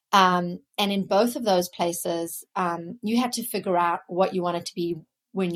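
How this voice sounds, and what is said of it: Non-Boston foreign accent. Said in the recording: “you can hear from my accent, I did not grow up in Boston”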